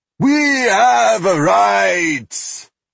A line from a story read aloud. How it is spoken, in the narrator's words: he yelled